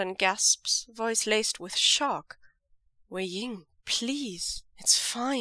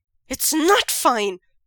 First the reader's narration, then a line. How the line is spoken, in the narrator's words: Wei Ying exclaims